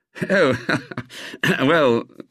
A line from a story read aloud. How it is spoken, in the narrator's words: said, with a modest little laugh